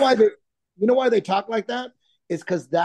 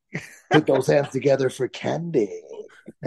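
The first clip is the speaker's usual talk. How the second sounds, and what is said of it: Goofy strip club DJ announcer voice. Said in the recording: “Dude, you have the voice... It's the fake DJ voice. You know, the fake South Park fake DJ... that tone is actually what cuts through all the noise”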